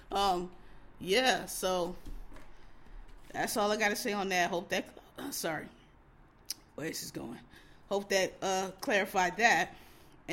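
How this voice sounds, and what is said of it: Losing voice, sounds sick with cold. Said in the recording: “my voice is going. I told y'all I'm having a little cold ... my voice is just out”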